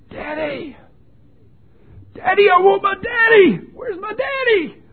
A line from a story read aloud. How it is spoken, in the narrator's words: He was screaming at the top of his lungs